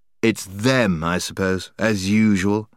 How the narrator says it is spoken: said the boy grimly

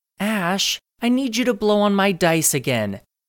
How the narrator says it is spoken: said in a whiny tone that irritated him

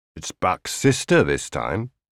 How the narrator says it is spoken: Isaksson said coldly

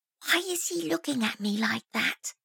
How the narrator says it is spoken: she said in a stage whisper that Roy could clearly hear

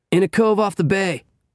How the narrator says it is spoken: Frank shouted

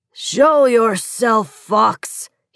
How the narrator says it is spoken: he roared

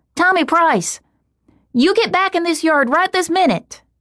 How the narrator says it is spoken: Unable to take one more step, she shouted again and again

